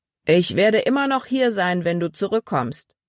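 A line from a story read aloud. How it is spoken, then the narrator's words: Calling after someone. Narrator (German): rief Paul ihr nach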